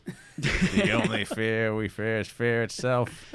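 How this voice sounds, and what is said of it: Imitates another person's voice. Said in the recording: “John F. Kennedy impersonation ... I thought you nailed. I thought he was here.”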